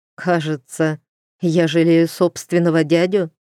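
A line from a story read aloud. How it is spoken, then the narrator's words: Question, then joyless laugh. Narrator (Russian): вслух спросил Глен у потолка и невесело рассмеялся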